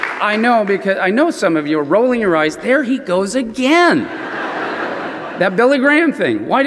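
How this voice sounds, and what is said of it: Usual voice. Nothing is said of it.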